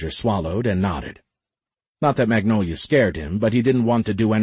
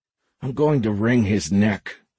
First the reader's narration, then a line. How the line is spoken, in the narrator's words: Roger growled